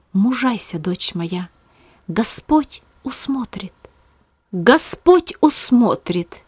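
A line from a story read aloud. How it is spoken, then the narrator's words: Inner whispering voice. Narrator (Russian): голос в своем сердце, шептавший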